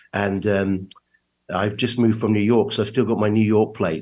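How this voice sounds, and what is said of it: English accent. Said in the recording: “you can tell from my accent that I'm obviously not originally from America ... that isn't a New York accent ... I was born in England”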